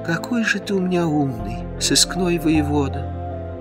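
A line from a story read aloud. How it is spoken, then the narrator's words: Soft tender sigh. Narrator (Russian): тихо и нежно вздохнула Алена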